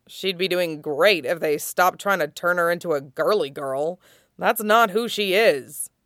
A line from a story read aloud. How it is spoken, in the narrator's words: He muttered